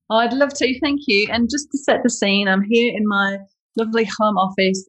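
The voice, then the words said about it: Speaks with an accent. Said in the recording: “We know you've got an accent there.”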